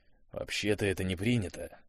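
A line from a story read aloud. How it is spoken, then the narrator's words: Disapproving grumble. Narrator (Russian): буркнул он неодобрительно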